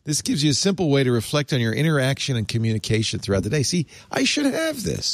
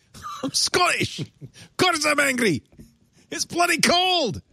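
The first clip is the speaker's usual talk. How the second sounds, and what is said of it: Put-on Scottish accent, angry-sounding. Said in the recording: “my Scottish accent ... You sound really angry.”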